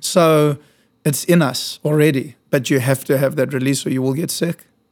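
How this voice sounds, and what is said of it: South African accent. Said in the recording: “your accent. Clearly. ... I was born in South Africa”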